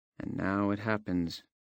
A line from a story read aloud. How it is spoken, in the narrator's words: Jazz murmured